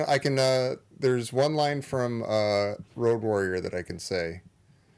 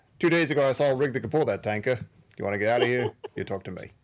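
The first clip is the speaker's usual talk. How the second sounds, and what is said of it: Put-on Australian accent, pretty good. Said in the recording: “Now I want to hear your Australian accent. ... Not bad. ... That was pretty good”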